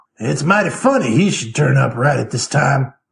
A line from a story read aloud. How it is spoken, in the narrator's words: growled